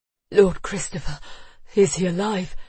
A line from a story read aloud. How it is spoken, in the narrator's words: he panted, his breath burning in his lungs